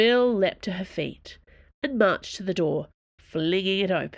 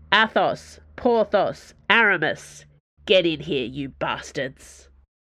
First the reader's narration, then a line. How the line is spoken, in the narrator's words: In an enormous voice, using every inch of her impressive lungs, she bellowed